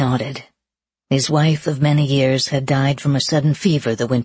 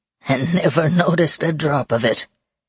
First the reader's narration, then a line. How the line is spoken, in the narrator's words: old Benedict said with a chuckle